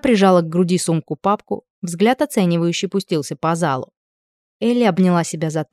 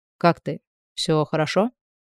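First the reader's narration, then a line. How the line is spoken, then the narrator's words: Quiet, close to ear. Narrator (Russian): Тихо прозвучало совсем рядом с ухом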